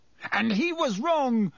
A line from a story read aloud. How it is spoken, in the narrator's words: Harry yelled